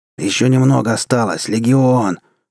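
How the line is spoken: Sympathetic hoarse voice over helmet. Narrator (Russian): сочувственно прохрипел голос роба в наших шлемах

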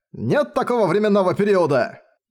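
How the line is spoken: Shouting together. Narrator (Russian): Снова закричали Райнер и Сион

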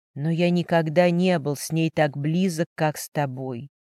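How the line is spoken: Quiet speech. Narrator (Russian): тихо сказал

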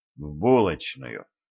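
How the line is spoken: Muttering. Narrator (Russian): буркнул Валентин

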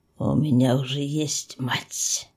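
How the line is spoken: Through clenched teeth. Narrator (Russian): сквозь зубы процедил Серый

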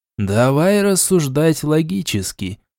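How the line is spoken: Muttered. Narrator (Russian): наконец пробормотал Шичерун

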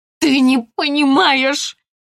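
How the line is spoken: Mother shrieking. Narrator (Russian): завизжала мама

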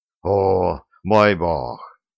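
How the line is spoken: Driver's breathless gasp. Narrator (Russian): выдохнул шофер, чтобы хоть немного отдышаться

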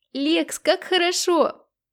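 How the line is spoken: Laughing. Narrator (Russian): Мы хохотали

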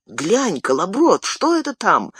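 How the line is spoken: Whispered question. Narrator (Russian): шепотом спросил Сэм

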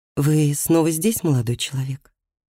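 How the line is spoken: Soft refined woman's voice. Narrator (Russian): Голос звучал мягко и утонченно, он принадлежал женщине в черном

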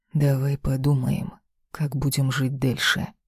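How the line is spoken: Whisper. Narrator (Russian): шепнул

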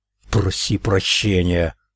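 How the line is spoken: Hissed. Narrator (Russian): прошипел Седовласый

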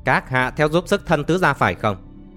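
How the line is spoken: Sudden laugh. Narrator (Vietnamese): Hạng Chân bỗng bật cười, nói

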